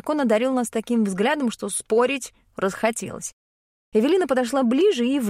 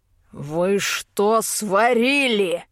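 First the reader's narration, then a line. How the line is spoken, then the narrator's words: Growling tone. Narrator (Russian): Рычащие нотки из голоса и не подумали пропадать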